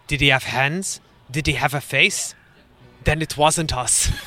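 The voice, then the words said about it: Put-on Eastern European accent. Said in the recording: “Do you like my accent? ... Apologies to all our Eastern European listeners. I tried.”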